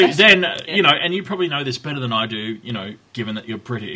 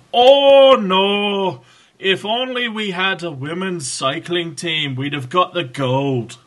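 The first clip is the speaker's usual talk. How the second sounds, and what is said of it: Confusing put-on accent. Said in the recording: “I've no idea what that accent was meant to be. ... Confusing?”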